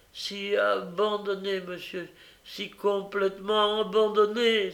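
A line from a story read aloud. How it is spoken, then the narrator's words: Child exclaiming. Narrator (French): s'écria l'enfant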